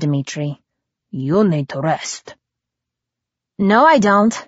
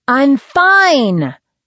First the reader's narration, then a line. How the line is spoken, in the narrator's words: I snapped